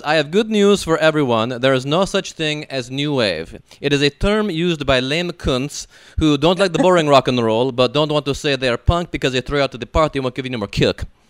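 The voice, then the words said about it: Horrible put-on French accent. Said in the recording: “I'm allowed to do a horrible French accent.”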